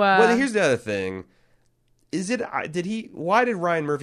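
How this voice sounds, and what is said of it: Usual voice. Nothing is said of it.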